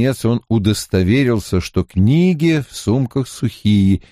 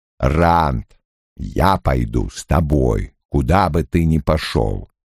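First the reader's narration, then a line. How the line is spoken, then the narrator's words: Plain. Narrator (Russian): сказал Лойл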